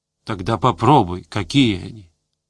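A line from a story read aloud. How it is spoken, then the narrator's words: Soft suggestion. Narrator (Russian): мягко предложил Гусев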